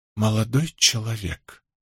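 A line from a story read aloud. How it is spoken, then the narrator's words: Strained whisper. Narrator (Russian): проговорила она надсадным шепотом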